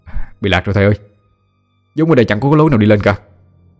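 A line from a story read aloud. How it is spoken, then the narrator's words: Hard, cold reply. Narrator (Vietnamese): Khang đanh mặt lại, lạnh lùng đáp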